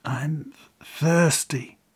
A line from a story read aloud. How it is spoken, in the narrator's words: the master whispered out loud